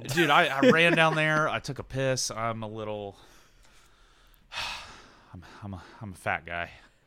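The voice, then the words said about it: Out of breath. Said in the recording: “You are out of breath, my friend.”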